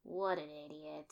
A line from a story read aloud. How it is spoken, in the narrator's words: he muttered